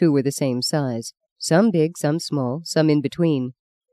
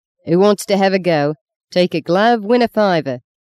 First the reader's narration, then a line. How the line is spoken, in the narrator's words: he kept yelling between the booms of a bass drum